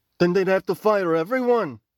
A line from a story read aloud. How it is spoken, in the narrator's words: Sila snapped